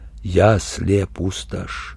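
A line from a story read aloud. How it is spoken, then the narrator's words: Quiet. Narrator (Russian): он сказал негромко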